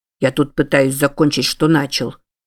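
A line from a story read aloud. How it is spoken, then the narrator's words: Sullen mutter. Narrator (Russian): Набычившись, пробурчал Чарльз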